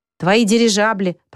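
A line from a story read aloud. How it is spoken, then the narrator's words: Blind man grumbling. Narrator (Russian): проворчал слепой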